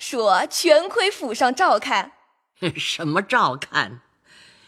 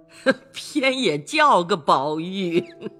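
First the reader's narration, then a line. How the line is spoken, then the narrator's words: Laughing. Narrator (Chinese): 贾母笑向李纨等道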